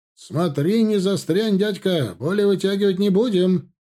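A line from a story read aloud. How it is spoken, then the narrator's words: Shouted after someone. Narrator (Russian): прокричал вслед штабс-капитан Дуров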